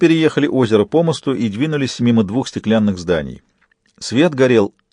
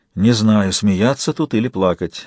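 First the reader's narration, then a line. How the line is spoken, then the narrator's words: Sighing. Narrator (Russian): вздохнул Джек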